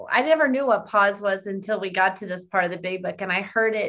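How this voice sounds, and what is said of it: Usual voice. Nothing is said of it.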